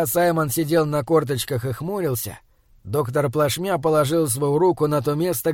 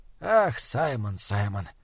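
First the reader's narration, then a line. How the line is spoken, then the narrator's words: Quiet laughter. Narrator (Russian): тихо засмеялся доктор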